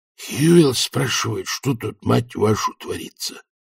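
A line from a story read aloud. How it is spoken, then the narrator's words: Hissed. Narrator (Russian): прошипел он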